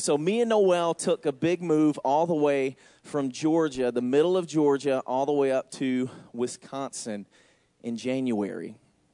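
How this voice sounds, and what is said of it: Southern US Georgia accent. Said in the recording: “As you can tell by my accent, I'm not from here... I'm from Georgia, actually.”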